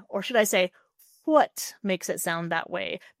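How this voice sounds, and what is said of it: Transatlantic accent, aspirated H. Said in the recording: “Transatlantic or Mid-Atlantic accent ... they will aspirate their H's like that”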